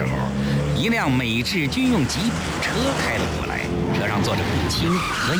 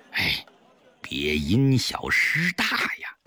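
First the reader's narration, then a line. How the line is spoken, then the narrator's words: Low-voiced warning. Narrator (Chinese): 赵师傅低声告诫肥肥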